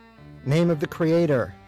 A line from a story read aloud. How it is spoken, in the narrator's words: he shouted again